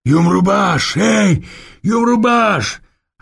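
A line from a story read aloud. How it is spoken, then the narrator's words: Powerful yell nearby. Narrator (Russian): орал где-то неподалеку мощный голос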